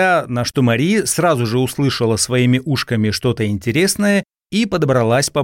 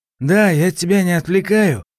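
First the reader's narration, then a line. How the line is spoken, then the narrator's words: Guilty question. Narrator (Russian): виноватым голосом спросил Савельев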